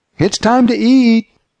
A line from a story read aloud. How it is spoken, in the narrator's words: his wife called loudly